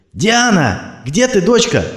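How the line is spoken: Shouting. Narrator (Russian): орал Сергей

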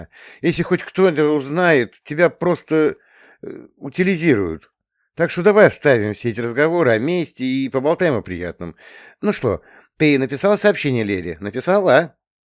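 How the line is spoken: Laughing. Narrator (Russian): засмеялась

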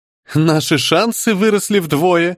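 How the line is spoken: Laughing. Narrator (Russian): рассмеялась Дагни

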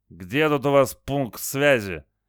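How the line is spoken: Strained forced words. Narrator (Russian): Геннадий выдавил из себя

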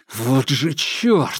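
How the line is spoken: Muttered through gritted teeth. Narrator (Russian): сквозь зубы процедил Макар

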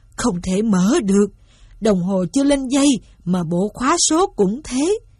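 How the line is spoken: Old man groaning. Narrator (Vietnamese): Ông rên rỉ

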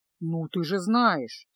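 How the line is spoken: Sad sigh. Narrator (Russian): печально вздохнул чародей

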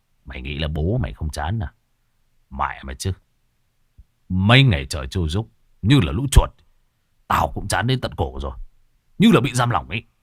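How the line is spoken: Harsh gritted voice. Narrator (Vietnamese): Hùng gằn giọng

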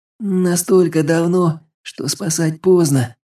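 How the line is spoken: Teenager's sad chuckle. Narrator (Russian): печально усмехнулся подросток

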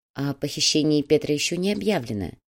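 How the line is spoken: Gentle reminder. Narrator (Russian): мягко напомнил Щеглов

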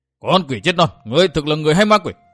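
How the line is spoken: Furious thunderous roar. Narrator (Vietnamese): Du Trưởng Minh lại càng thêm tức giận, gầm lên như sấm

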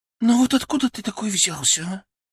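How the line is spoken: Sighing. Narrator (Russian): Она вздохнула

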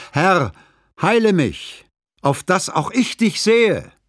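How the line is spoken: Old blind man calling loudly. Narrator (German): ruft ein Greis, der von Kindheit an blind ist, den Vorübergehenden laut an

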